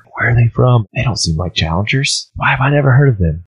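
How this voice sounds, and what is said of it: Whispering. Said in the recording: “everyone begins to whisper”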